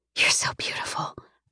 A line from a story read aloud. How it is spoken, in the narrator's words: I whisper